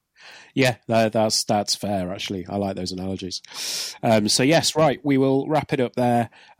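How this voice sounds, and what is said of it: Worn-out, strained voice. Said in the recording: “My voice is slowly disintegrating”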